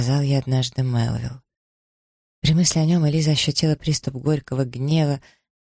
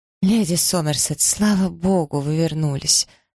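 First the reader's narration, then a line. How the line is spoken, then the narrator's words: Moaning. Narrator (Russian): простонала она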